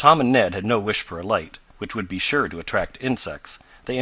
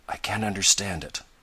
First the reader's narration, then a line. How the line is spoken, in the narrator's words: heard Ned murmur